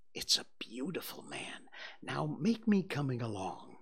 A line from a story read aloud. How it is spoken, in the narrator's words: She was satisfied with the monster and whispered